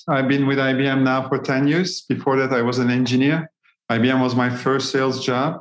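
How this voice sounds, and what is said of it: Turkish accent. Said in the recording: “The accent is Turkish.”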